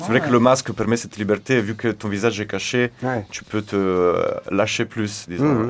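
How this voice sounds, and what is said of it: Slight Italian accent in French. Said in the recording (French): “un petit accent... je suis originaire d'Italie”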